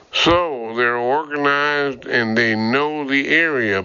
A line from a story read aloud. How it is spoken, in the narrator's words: Burke grumbled